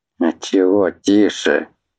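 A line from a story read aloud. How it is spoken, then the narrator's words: Sudden chuckle. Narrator (Russian): Внезапно хохотнул старпом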